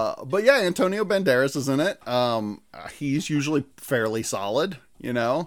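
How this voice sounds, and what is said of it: Usual voice. Nothing is said of it.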